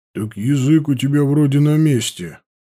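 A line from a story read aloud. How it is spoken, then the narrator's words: Grumbling mutter. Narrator (Russian): буркнул Туоли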